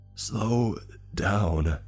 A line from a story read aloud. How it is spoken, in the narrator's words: I wheezed